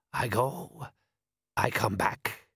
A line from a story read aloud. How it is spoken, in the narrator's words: he growled happily